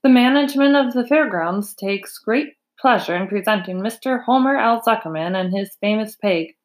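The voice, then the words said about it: Pompous announcer voice. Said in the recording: “said the loudspeaker in a pompous voice”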